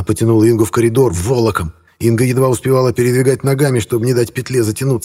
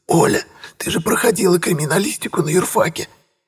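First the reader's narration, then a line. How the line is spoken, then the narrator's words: Choppy hoarse wheezing. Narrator (Russian): Отрывисто хрипела Инга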